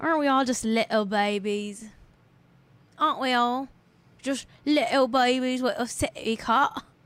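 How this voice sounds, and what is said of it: Put-on British accent. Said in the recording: “I do too much British accent work on this show”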